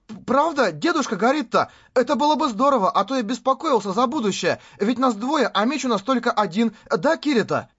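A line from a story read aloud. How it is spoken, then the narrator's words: Joyful. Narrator (Russian): Радостно произнес Юджо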